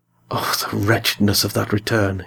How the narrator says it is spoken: he murmured

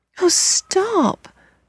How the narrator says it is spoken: the children cried

